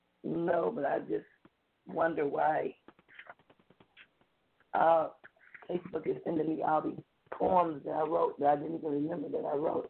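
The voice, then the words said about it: Hoarse, nearly lost voice. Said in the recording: “my voice is just gone ... I'm just tired”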